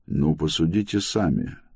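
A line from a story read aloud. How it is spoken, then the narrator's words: Said calmly. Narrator (Russian): спокойно сказал Антер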